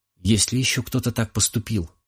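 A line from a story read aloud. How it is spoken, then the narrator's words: Muttered whisper. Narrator (Russian): прошептала она себе под нос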